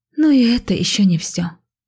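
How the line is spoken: Sighing. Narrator (Russian): вздохнула Иоланта

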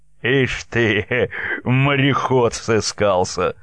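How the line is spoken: Mocking laugh. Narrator (Russian): посмеялся Ермак

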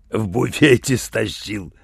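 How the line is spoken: Proud growl. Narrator (Russian): с гордостью прорычал он

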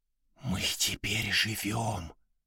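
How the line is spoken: Whisper. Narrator (Russian): зашептал он

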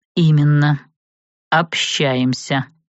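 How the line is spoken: Through gritted teeth. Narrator (Russian): процедил Светлый

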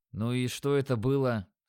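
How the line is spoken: Calm, icy question. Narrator (Russian): спросил я спокойным, но ледяным тоном

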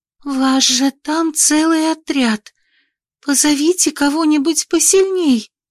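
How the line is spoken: Trembling demand. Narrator (Russian): потребовала дрожащим голосом Элина

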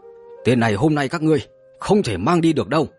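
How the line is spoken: Angry group speaking. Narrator (Vietnamese): đám người Vân Chân Tử liền tức giận lên tiếng

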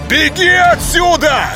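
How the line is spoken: Shouting. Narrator (Russian): крикнул

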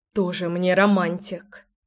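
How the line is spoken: Amused snort. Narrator (Russian): Я фыркнула, но сдержать улыбку не могла

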